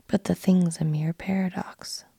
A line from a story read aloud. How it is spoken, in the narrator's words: said the editor